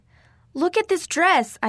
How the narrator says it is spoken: wailed

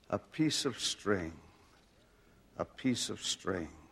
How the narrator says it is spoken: In the delirium of his death struggles, repeatedly murmured

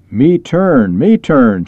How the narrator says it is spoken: shouted

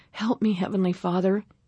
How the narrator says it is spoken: prayed aloud in ragged, winded gasps

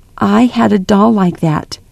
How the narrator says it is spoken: Grandmother said again

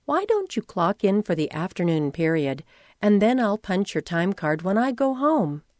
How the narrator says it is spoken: said quietly

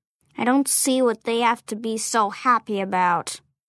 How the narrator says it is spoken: she grumbled to herself

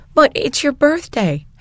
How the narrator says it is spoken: Hattie cried

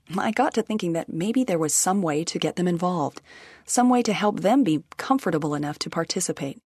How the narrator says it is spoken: Allie says

